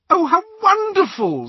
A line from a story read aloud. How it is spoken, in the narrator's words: squealed Hermione